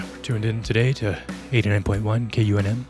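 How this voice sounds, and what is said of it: Soft, close-mic radio announcer voice. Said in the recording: “Talk like this softly into the mic... You gotta use your NPR voice.”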